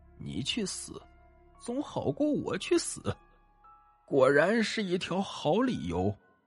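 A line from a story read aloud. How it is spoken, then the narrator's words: Murmuring. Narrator (Chinese): 女鬼喃喃道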